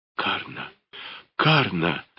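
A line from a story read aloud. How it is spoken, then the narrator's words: Whisper then shout. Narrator (Russian): зашептал и закричал он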